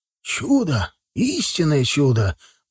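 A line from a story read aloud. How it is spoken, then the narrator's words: Reverent whisper. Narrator (Russian): благоговейно прошептал градоначальник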